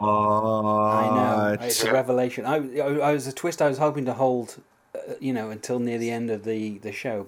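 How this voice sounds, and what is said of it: Non-American accent. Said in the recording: “as you can tell from my accent, I'm not American”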